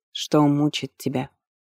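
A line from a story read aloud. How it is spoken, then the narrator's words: Quiet question. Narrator (Russian): тихо спросил бывший телохранитель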